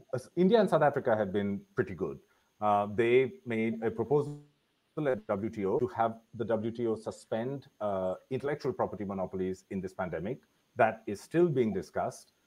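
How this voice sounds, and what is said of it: Deliberately louder speaking voice. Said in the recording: “I'm raising my voice a little bit because I think there's a complaint that my voice is too soft ... if I'm screaming”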